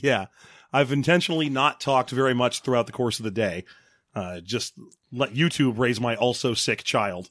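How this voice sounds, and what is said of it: Hoarse, strained voice. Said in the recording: “I've had laryngitis for like 3 days now”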